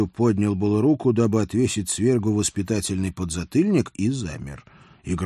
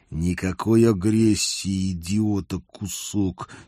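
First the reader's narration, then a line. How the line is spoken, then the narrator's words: Soft smiling hiss. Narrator (Russian): с мягкой улыбкой прошипел я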